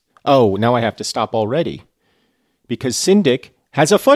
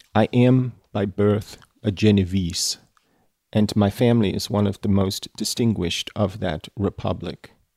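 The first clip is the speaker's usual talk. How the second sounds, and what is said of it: Christoph Waltz-style accented reading voice. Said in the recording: “the voice of Frankenstein a la Christoph Waltz ... my appalling accent work”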